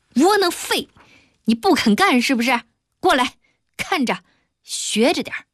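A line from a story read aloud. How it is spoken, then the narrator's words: Furious cursing. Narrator (Chinese): 二哥恼羞成怒，破口大骂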